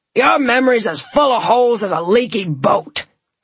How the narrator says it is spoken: bellowed Jack

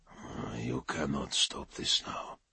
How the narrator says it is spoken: he murmured, speaking softly to his pursuers

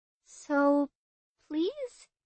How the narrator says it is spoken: I said, my voice shaking slightly

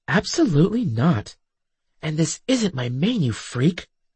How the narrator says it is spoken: I hissed

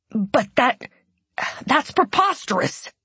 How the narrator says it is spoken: the monk sputtered

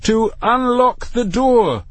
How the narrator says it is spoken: said Matthew, his voice now appreciably raised

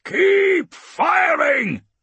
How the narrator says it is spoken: he roars

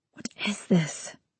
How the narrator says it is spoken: I hiss in his ear, a rictus smile baring my teeth at the world

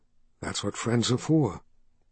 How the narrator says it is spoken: whispered in her ear

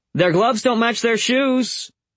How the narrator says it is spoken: he called

